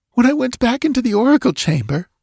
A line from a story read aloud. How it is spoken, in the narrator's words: she whimpered